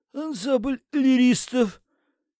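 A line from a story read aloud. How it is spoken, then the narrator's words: Hoarse. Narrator (Russian): хрипло сказал завхоз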